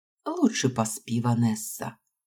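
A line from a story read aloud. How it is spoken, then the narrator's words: Gentle advice. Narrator (Russian): мягко посоветовала миссис Фокс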